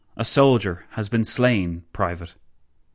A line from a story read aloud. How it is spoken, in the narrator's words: McKay simply said